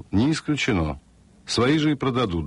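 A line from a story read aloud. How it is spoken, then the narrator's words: Calm reply after pause. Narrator (Russian): Фред подумал и спокойно ответил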